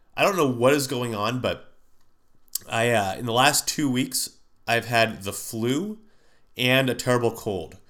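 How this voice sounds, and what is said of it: Nasal, congested voice. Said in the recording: “I sound a little nasally, it's because I am. I'm getting over the worst sinus cold”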